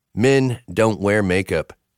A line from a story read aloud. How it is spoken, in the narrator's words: he said firmly, like it was a law